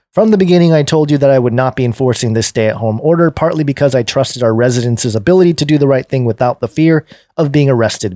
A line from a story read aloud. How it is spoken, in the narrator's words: Bianco said